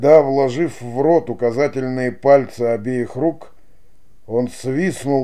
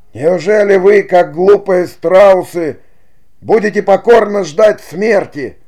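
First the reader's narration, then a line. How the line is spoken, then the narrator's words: Shouting. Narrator (Russian): закричал Лука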